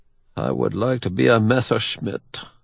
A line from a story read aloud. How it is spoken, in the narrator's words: Bischoff mutters